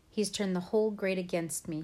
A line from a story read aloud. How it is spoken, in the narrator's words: he says